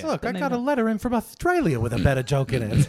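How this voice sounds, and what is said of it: Poor impression sounding like Top Cat. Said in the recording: “That was Top Cat. That was a terrible impression.”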